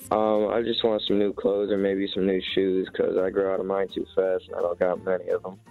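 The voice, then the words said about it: Unusually deep, mature-sounding voice. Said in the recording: “you have such a deep voice ... you sound like you're 21 years old”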